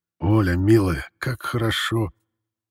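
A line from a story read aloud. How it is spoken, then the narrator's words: Very quiet whisper. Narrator (Russian): Константин Петрович шепчет тихо-тихо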